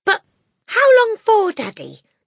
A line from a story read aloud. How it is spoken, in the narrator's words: Matilda cried